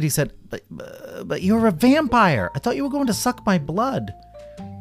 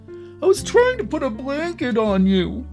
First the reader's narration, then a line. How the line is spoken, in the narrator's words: whimpered